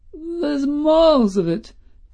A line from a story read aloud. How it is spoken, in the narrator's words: quavered old Woody Field